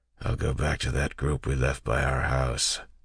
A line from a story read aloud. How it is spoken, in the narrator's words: Club said in a grumbling voice